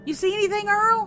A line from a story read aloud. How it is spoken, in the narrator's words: called out to Daddy